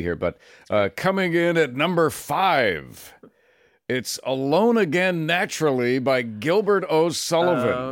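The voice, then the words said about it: Shadoe Stevens radio announcer impression. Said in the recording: “do my Shadow Stevens voice.”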